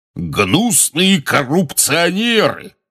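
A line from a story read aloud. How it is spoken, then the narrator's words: Roared. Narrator (Russian): взревел портрет дородного красноносого волшебника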